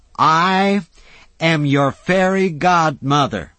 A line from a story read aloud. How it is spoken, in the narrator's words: she shouted